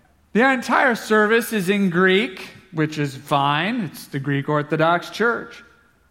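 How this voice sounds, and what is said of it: Usual voice. Nothing is said of it.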